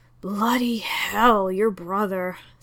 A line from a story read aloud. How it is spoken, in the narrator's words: sighed Lestrade into his scotch